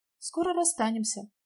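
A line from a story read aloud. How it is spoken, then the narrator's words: Quiet. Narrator (Russian): сказала негромко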